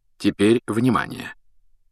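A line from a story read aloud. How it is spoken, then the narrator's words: Quiet and distinct. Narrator (Russian): Дамблдор заговорил тихо и отчетливо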